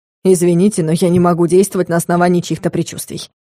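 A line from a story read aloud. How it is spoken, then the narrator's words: Snort, mixed feelings. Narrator (Russian): хмыкнул Соболев, испытывая смешанные чувства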